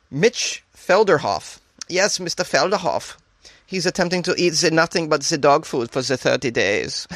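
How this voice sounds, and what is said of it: Put-on German accent. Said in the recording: “I don't know why I have the German accent. ... It made me transition into the German.”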